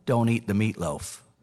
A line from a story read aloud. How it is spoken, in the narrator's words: whispers